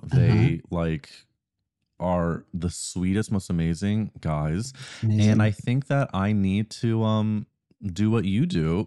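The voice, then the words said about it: Raspy, tired voice. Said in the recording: “I'm like so tired and my voice sounds like I've been smoking cigs”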